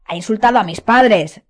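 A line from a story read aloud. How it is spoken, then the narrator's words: Growled. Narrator (Spanish): gruñó George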